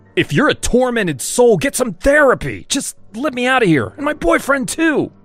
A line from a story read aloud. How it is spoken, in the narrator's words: shouted